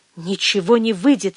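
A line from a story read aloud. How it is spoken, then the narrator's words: Barely breathed out. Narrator (Russian): еле выдохнула она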